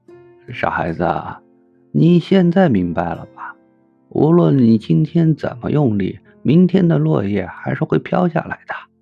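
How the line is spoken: Smiling, gentle. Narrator (Chinese): 老和尚，笑着对他说

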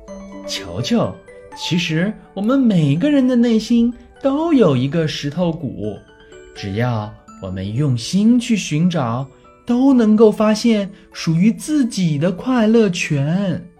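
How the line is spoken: Playful. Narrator (Chinese): 笑笑调皮地眨了眨眼睛，说道

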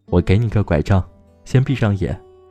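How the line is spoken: Laughing. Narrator (Chinese): 他笑着说

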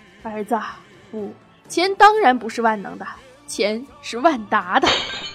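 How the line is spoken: Slight smile. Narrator (Chinese): 王健林微微一笑

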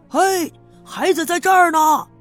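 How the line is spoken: Loud shout. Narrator (Chinese): 有人大声的叫

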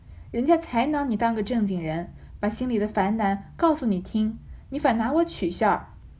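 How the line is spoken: Embarrassed laughing. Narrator (Chinese): 不觉红了脸，笑道

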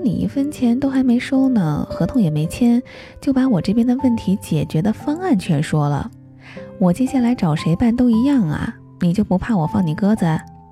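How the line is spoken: Laughing. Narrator (Chinese): 他又笑了，说

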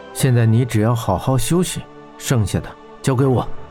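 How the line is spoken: Soft gentle voice. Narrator (Chinese): 霍真柔声道

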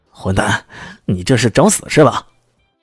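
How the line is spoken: Ashamed, furious roaring. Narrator (Chinese): 他感觉羞怒异常，几乎是咆哮着说道

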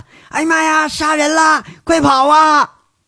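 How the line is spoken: Noisy panicked shouting. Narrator (Chinese): 有人呐就闹闹哄哄喊

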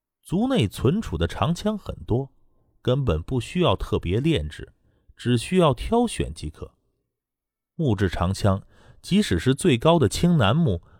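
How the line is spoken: Laughing. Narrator (Chinese): 腾云龙笑着说

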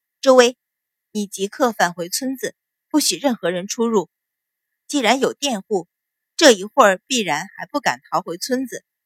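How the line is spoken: Cold, through clenched teeth. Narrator (Chinese): 阮云欢冷冷瞧着，咬了咬牙，说道

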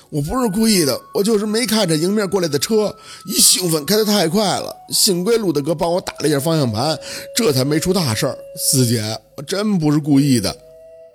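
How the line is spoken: Tearful whimper. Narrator (Chinese): 小六苦着脸…吭哧着哭腔张嘴

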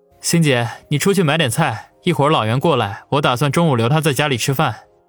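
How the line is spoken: Smiling. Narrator (Chinese): 王宇则笑着对方心说道

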